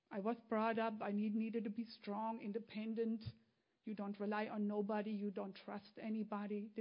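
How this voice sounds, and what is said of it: Foreign-accented English. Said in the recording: “I still speak differently. My accent is not going away.”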